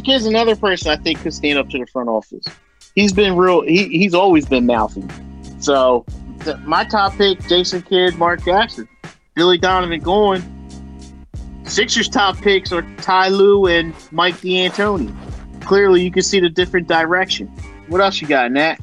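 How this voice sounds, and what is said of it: Yelling, loud agitated speech. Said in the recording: “why are you yelling?”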